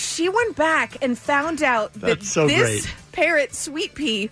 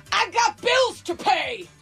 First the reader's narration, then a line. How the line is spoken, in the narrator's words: shouting